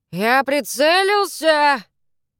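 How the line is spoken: Shout. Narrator (Russian): крикнул

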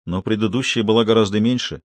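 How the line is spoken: Lifeless voice. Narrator (Russian): безжизненным голосом заметил Грир

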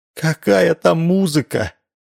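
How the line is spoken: Sighing. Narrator (Russian): вздохнула Гаврилова

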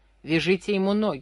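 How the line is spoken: Hoarse, breathless. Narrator (Russian): хриплый задыхающийся голос Комарова

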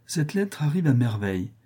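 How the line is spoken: Cheerful. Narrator (French): dit gaiement Rodolphe

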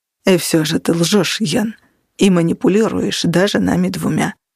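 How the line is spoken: Calm. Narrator (Russian): спокойно сказал Криспин

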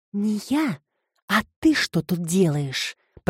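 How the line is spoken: Hissed reply. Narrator (Russian): прошипела в ответ Филомена

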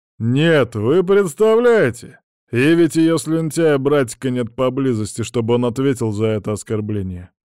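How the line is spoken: Deliberately loud. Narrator (Russian): нарочито громко произнес он

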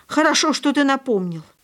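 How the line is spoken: Spirited exclamation. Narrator (Russian): воскликнула столь же темпераментно

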